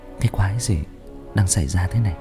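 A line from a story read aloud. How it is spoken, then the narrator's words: Muttering. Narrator (Vietnamese): Tôi lẩm bẩm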